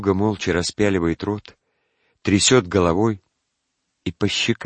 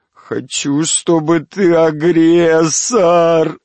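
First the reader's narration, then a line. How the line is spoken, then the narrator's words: Sobbing. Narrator (Russian): рыдает Пичуга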